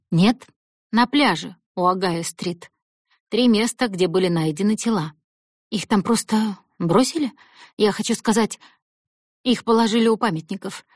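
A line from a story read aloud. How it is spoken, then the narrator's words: Plain. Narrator (Russian): ответил Гарри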